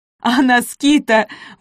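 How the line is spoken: Forced-out words. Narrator (Russian): выдавил он

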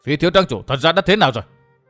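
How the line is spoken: Angry, loud question. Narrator (Vietnamese): Vũ Á Vinh tức giận lớn tiếng hỏi

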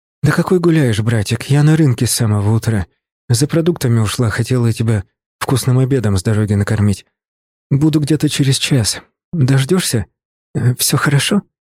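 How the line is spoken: Plain. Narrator (Russian): спросила она

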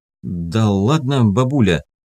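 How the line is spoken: Reluctantly forced out. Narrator (Russian): выдавил он из себя наконец

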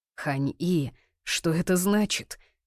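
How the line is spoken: Tense, restrained demanding voice. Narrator (Russian): напряженным голосом поинтересовался у нее Хань-Дзише, с трудом сдерживая требовательные нотки

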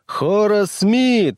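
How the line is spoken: Roaring. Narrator (Russian): взревела она

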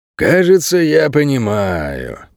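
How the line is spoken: Slow drawl. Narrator (Russian): протянул Ричи

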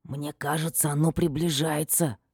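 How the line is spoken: Hoarse whisper. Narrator (Russian): шепотом хрипит Ферди

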